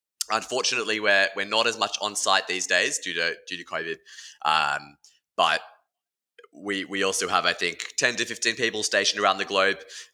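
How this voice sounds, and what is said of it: Australian accent. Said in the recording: “I think the accent might be a slight giveaway ... Most of those people are in Sydney, Australia, as you can tell from the accent.”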